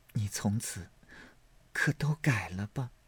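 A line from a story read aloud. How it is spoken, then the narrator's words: Long sigh. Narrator (Chinese): 宝玉长叹一声道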